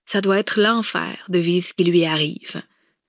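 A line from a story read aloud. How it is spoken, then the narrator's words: Murmuring. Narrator (French): murmura Clémence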